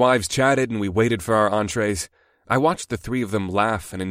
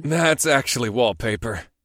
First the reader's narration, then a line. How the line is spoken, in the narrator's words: I chuckled